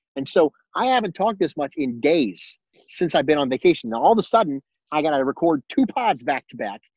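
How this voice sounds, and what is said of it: Slightly hoarse, tired voice. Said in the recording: “I am running out of voice ... my voice is getting a little hoarse.”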